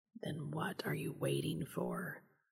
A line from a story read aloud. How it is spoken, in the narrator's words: he whispered